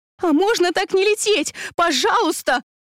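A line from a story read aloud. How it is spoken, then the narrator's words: Pleading, voice unrecognizable. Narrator (Russian): Взмолилась я и не узнала собственный голос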